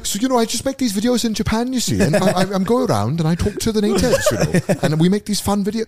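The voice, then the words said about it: Thick exaggerated Welsh accent. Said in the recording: “Your accent's not thick enough for them anymore. ... I could have brought it back.”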